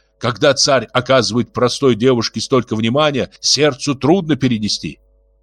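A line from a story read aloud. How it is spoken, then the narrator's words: Sharp. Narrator (Russian): Русула резко сказала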